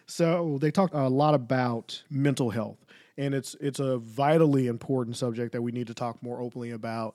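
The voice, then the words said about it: Strained, failing voice. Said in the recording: “As you can hear, my voice is failing a little bit. Allergies and everything else during this season is pretty, pretty bad”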